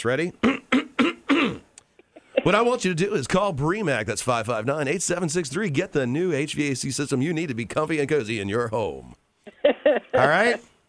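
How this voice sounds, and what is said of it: Announcer-style radio voice. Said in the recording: “in my best radio voice”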